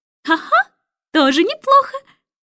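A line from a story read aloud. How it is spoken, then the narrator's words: Cheerful laughing. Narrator (Russian): Нелли Рубина весело рассмеялась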